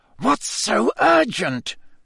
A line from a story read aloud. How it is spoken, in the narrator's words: Snape hiss at Karkaroff